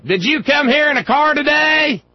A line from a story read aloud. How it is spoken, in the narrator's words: One idiot in the crowd standing near the little speaking platform, it kept hollering at everyone who spoke